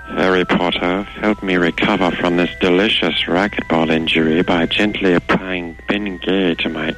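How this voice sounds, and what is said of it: Professor Snape character impression. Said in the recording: “my impression ... It's my Snape ... Professor Snape”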